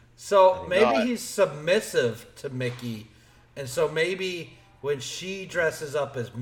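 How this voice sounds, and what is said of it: Usual voice. Nothing is said of it.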